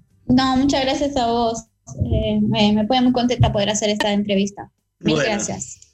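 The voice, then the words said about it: French-Argentine accent in Spanish. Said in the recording (Spanish): “ahí los oyentes notarán que ... tiene un, acento franco-argentino”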